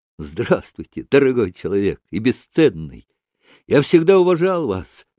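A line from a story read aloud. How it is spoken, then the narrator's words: Joyful rapid reply. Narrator (Russian): радостно и стремительно отозвался Митя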